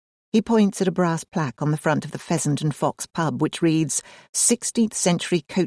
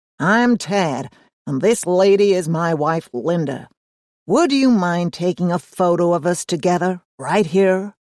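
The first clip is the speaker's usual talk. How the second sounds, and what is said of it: Drawling American accent. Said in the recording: “says a stout man in baggy shorts in a drawling American accent.”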